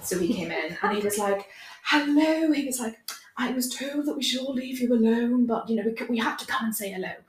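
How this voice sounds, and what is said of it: Imitates another person's posh accent. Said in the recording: “my impression of your accent”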